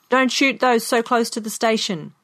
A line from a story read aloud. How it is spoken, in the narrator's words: A man in a car at the end of the line shouted